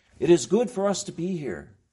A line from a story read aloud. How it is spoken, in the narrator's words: Peter was the one who on the Mount of Transfiguration blurted out